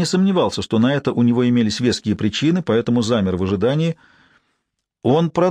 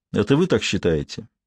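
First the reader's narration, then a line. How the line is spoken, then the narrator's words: Calm tone. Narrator (Russian): детектив произнес спокойным тоном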